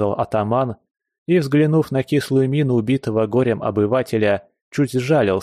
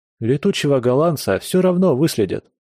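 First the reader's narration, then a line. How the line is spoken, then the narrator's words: Sorrowful sigh. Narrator (Russian): горестно вздохнул Федор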